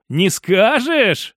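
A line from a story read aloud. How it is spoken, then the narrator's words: Laughing. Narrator (Russian): рассмеялся я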